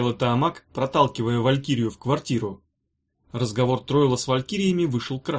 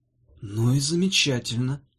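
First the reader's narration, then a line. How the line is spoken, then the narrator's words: Gentle reply. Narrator (Russian): ласково ответил Тройл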